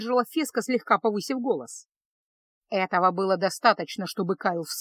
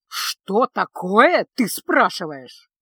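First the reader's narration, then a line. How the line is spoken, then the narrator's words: Caustic hiss. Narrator (Russian): едко прошипел он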